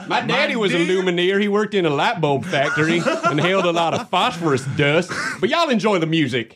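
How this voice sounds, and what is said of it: Put-on rural Southern redneck accent. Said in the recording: “I don't know where that accent is from ... Hipster rednecks.”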